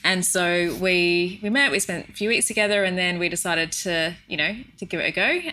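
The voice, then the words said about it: Australian accent. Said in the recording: “as if you can't tell from my accents, Nick is English and I'm from Australia”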